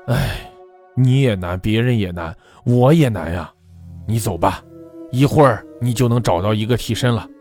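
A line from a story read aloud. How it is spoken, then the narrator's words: Heavy sigh. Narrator (Chinese): 他重重地叹了口粗气，对女鬼说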